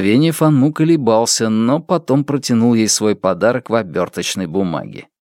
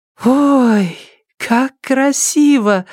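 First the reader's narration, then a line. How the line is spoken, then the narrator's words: Delighted exclamation. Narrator (Russian): воскликнула Дэн Линьё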